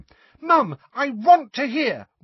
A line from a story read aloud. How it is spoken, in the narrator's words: wailed Ginny